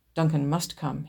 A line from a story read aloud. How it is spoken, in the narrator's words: he said quietly